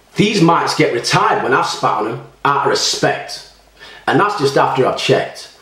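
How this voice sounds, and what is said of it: Cockney accent. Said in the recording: “Is that what this is, a Cockney accent?”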